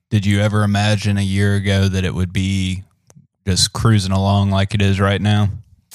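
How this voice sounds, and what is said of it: Deep voice, Southern accent. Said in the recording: “got a deep sultry voice. I don't know how everyone's going to like the Southern accent”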